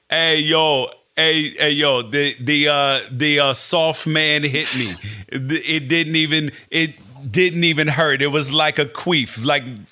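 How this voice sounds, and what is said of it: Put-on Serbian accent. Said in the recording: “your Serbian accent is fantastic”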